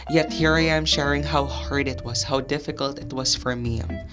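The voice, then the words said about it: Weak voice, not fully recovered. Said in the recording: “I lost my voice and how my voice is right now, and it's not fully recovered.”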